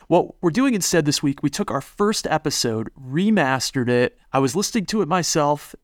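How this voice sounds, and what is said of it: Sick, rough-sounding voice. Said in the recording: “the whole family's sick ... Sorry, my voice sounds so bad.”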